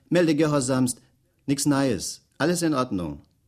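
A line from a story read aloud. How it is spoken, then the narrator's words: Called out while saluting. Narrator (German): rief er salutierend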